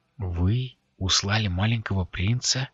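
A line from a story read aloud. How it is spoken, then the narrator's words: Barely audible breath. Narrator (Russian): чуть слышно выдохнула Адарана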